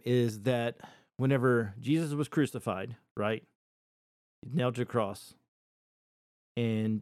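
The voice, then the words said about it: Emotional, choked-up voice. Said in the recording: “I'm getting a little emotional”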